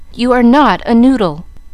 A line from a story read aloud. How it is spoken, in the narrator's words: cried Mamma, resenting the epithet